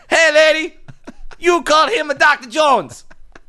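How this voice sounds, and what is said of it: Bad put-on Chinese child accent. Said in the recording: “That was the worst small Chinese accent ever.”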